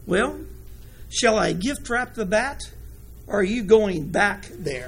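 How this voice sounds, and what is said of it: Very soft, gentle voice. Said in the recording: “in a very soft voice”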